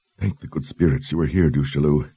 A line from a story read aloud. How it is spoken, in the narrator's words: Kalin whispered